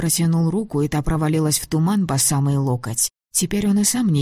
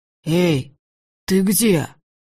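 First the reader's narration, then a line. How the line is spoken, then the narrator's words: Suddenly hoarse call. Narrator (Russian): позвал враз осипшим голосом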